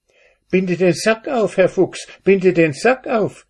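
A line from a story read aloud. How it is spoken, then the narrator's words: Cat calling out. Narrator (German): rief die Katze zu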